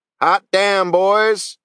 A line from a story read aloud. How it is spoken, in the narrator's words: Sarge shouted